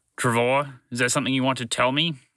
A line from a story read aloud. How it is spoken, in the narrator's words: He asked impatiently